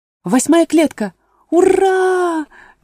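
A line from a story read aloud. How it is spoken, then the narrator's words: Shouted. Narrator (Russian): крикнула Алиса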